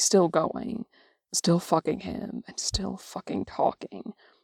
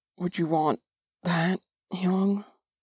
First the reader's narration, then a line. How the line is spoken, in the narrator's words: He pants